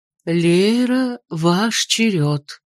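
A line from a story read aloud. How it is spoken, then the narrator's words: Flat colorless voice. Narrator (Russian): произнесла она своим бесцветным голосом, даже не улыбнувшись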